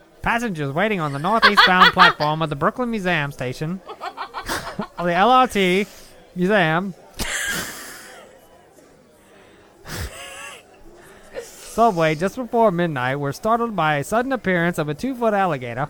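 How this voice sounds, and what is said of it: Old-time newscaster voice. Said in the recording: “I could do like a news person accent. ... like an old-time news person, maybe.”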